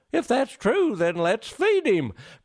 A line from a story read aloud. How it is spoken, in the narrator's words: cried Santy with glee